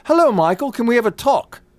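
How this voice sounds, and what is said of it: Imitated English accent. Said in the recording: “he has an English accent now ... That's how he talks. Not like that.”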